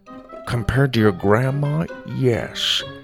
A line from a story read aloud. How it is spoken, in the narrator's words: Grandpa whispered